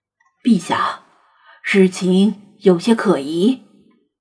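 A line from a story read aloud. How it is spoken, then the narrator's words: Low voice. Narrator (Chinese): 老查低声说道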